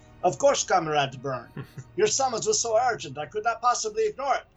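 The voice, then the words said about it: Thick Russian accent for Colossus. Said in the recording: “all of a sudden I'm thrown into a thick Russian accent”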